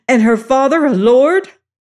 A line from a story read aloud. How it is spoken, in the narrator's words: The reverend gentleman and I gasped in astonishment